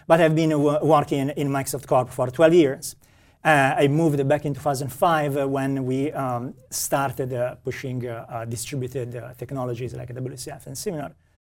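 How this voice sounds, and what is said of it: Italian accent. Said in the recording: “you can hear from my accent that I am Italian”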